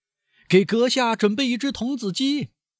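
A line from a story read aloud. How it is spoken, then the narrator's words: Loud full-throated shout. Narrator (Chinese): 佩皮诺放开喉咙喊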